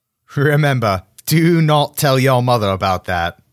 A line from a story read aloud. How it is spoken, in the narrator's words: I laughed